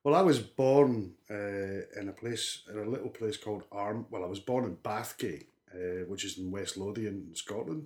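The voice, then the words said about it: Scottish accent. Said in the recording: “you're not from South Wales at all, because there's a north of the border accent”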